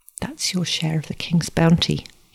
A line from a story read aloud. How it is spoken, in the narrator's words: he whispered